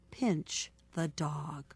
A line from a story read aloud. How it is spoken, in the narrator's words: the baker woman whispered to her husband